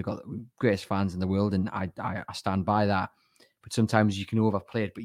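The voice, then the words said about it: Strained, worn-out hoarse voice. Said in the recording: “you can hear by my voice ... it's on its last legs”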